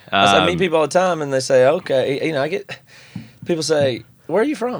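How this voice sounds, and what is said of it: Southern twang accent. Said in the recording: “they can hear a little bit of twang in your voice ... I love that you still have your twang”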